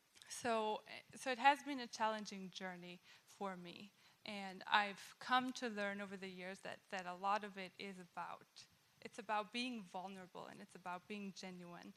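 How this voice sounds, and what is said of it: German accent. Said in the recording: “My background is German. ... people pick up on my accent pretty quick”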